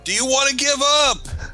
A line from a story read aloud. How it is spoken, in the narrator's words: I'm going to yell out